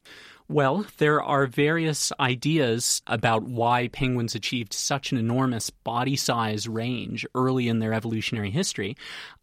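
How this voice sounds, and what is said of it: Canadian accent. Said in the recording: “I'm from Canada, as you can probably tell from my accent”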